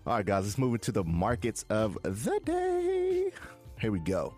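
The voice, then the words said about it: Voice goes unusually high-pitched. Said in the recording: “why did my voice go kind of high like that?”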